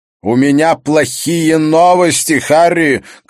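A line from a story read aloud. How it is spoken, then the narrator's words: Shouted. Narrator (Russian): крикнул Мёллер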